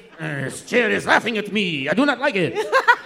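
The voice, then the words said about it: Put-on French accent. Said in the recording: “Your French impression is good ... our really good French accent”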